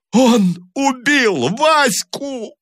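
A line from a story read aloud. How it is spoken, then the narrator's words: Sobbing wail. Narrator (Russian): Рыдающим голосом вопил Таманцев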